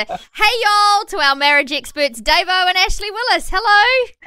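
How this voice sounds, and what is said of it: Put-on American accent. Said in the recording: “I figured if Dave-O was going to practice our Aussie accent, I needed to practice their accent ... Oh, wow, that's really good”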